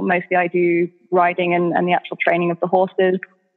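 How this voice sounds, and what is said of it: English accent. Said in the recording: “as most of you will have told by my accent by now, I am from England ... the token accent”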